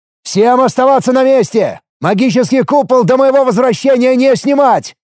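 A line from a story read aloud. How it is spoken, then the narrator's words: Shouted order. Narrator (Russian): прокричал я приказ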